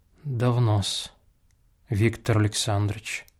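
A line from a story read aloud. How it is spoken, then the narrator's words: Barely audible. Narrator (Russian): проговорила она наконец едва слышным голосом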